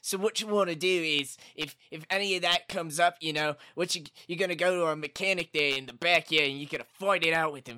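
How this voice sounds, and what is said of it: Put-on accent. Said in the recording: “With an accent.”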